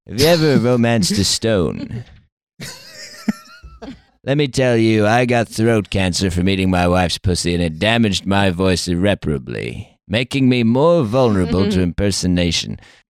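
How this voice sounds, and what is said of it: Imitates another person's voice. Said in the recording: “You're straying into Vincent Price there.”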